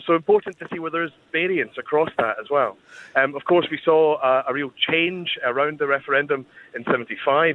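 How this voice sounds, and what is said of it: Scottish accent. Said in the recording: “you can probably tell from my accent, the Scots”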